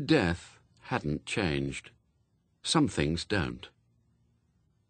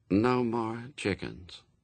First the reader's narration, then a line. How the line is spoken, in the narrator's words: said Famine flatly